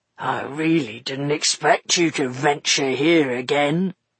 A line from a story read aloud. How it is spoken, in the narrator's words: purred Buster